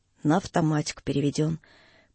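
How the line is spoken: Calm, lazy, offhand. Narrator (Russian): Лаврюха спокойно, с некоторой даже линцой, словно речь шла о чем-то незаслуживающем внимания, заключил

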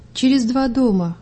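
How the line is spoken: Sad. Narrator (Russian): грустно ответила я

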